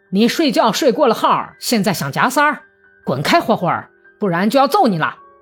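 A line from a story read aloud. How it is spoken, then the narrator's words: Hoarse fierce barking shout. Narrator (Chinese): 一个沙哑凶狠的声音像狗叫似的喊道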